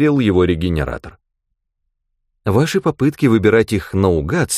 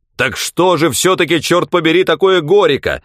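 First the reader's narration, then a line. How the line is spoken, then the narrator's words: Barked. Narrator (Russian): рявкнул Кэсвелл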